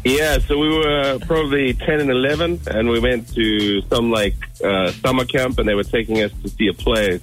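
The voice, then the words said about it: Speaks with a noticeable accent. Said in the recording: “I love his accent.”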